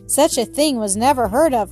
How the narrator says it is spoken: cried Mistress Elliott

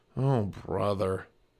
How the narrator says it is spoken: muttered Jack

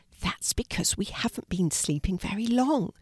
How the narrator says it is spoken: Ella whispered

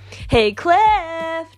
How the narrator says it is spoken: Jake called loudly

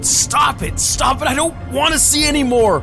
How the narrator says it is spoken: William screamed

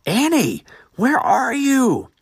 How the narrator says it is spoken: Eric cried aloud again

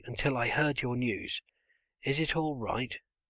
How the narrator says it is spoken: he called up hoarsely

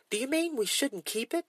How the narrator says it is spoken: Henny asked in a shocked voice

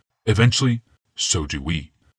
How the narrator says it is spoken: Yawmoth said grimly

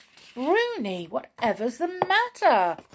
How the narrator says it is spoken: cried Tiptoe in alarm

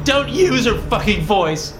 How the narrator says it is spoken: shout, my own voice cracking with emotion

